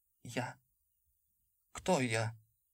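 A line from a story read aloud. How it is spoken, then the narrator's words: Confused mutter. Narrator (Russian): растерянно пробормотал он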